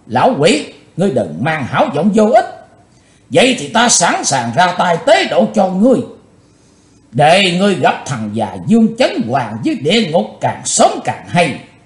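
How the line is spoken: Angry loud shout. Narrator (Vietnamese): Chí Tôn nổ giận quát to

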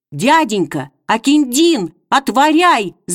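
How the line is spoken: Breathless shout. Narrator (Russian): задыхаясь, выкрикнул он

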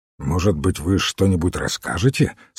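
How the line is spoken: Plain. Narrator (Russian): спросил Фламбо

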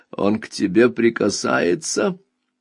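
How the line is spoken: Almost spiteful question. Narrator (Russian): мать почти злобно спросила

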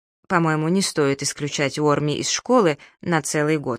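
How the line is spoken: Plain. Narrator (Russian): сказал я

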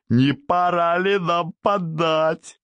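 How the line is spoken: Joyful roar. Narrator (Russian): Радостно взревел Старовойтов

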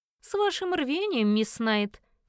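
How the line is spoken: Man's snort. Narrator (Russian): хмыкнул мужчина

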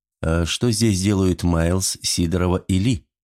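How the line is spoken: Quiet question. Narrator (Russian): тихо спросил Дима

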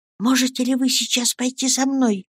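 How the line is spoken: Anxious whisper. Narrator (Russian): взволнованно прошептала она

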